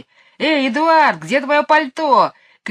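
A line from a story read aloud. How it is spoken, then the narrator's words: Mocking high shrill shout. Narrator (Russian): крикнул Майкл, стараясь передразнить высокий визгливый голос мисс Ларк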